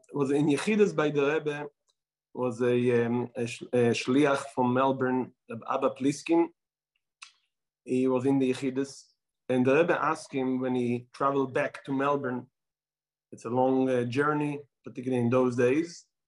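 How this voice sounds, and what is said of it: Israeli accent. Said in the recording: “I will try not to lose my Israeli accent”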